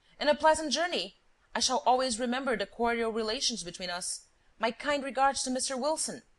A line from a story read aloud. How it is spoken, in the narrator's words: cried Lupin